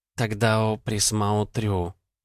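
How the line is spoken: Purring. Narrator (Russian): мурлыкнула имя Ул

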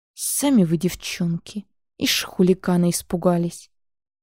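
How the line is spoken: Muttered through teeth, old man. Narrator (Russian): процедил дед

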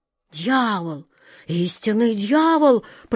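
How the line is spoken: Old man whispering. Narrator (Russian): прошептал старый рыбак

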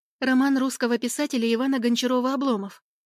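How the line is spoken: Rapid rattling. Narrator (Russian): быстро протараторила я

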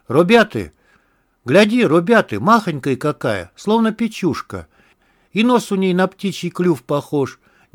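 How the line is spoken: Young man's amazed exclamation. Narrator (Russian): Не скрывая изумления, воскликнул голубоглазый молодой стрелец

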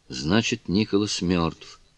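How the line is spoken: Quiet. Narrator (Russian): тихо произнесла Кларинда

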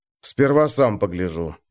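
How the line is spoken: Grumbling. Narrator (Russian): проворчал он

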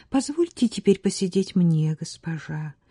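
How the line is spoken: Quiet. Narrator (Russian): тихо сказала девушка

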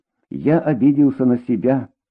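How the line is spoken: Plain. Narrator (Russian): сказал он Дине

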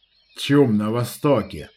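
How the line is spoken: Grumbled. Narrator (Russian): проворчал Выдра

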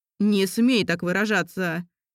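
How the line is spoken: Angry bark. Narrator (Russian): рявкнул он

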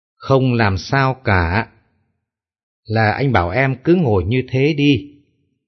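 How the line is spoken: Smiling, unhurried. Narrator (Vietnamese): Vân mỉm cười trả lời thong thả

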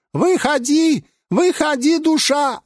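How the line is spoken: Demons yelling. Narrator (Russian): орали шайтаны

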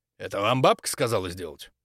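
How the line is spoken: Plain. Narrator (Russian): спросил Крюгер

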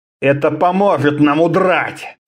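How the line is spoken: Grumbled. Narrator (Russian): проворчал он

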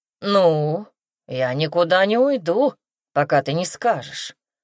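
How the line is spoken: Grumbling. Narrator (Russian): проворчал он

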